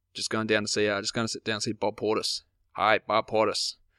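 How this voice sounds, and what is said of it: Bad put-on American accent. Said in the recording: “Terrible American accent.”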